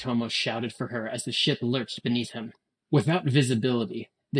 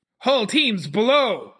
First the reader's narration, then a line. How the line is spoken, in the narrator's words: Yoritomo shouted his orders with the unquestionable authority of command